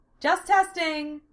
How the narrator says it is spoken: Sarah called out

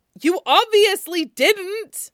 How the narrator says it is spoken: Wei Wuxian shouts, cutting him off

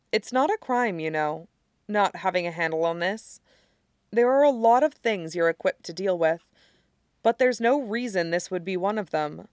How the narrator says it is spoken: saying gently

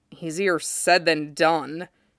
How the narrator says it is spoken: Jason grumbled

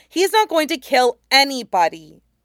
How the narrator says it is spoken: Aang said firmly

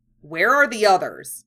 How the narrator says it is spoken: asked sharply

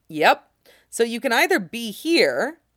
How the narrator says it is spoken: Ed says calmly

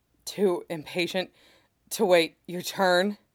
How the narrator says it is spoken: Nikki asks, the words jolting out of him in between little gasps

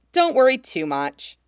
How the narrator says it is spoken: Haruta says cheerfully

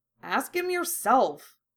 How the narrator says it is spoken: Harry grumbled

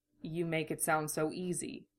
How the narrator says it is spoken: Roy said quietly

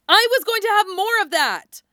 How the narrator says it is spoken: Nami screamed at him

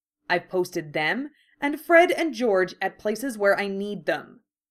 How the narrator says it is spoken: Harry said firmly, with no time to argue with her

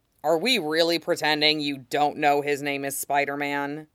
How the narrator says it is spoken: Jason drawls

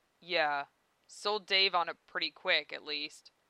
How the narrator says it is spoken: He chuckles again, breathes smoke, and says

